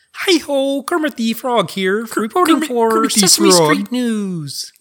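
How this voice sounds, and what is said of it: Imitates Kermit the Frog's voice. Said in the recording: “Kermit? Can you guys do Kermit? ... That's pretty good. That's pretty good.”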